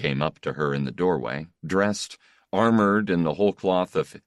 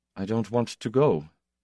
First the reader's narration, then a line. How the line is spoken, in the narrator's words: he said softly